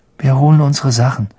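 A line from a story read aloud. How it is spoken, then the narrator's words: Weary voice. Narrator (German): sagte Ron mit matter Stimme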